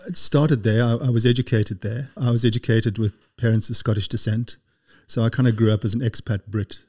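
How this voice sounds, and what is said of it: Slight South African accent. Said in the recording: “a hint of a South African accent”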